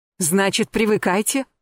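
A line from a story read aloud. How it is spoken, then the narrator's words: Irritated, curt. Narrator (Russian): раздраженно бросила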